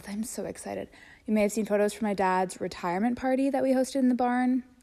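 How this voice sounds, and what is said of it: Out of breath. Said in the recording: “Sorry, I'm out of breath.”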